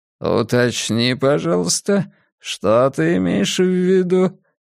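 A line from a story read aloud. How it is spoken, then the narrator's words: Velvety request. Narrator (Russian): Бархатным голосом попросил он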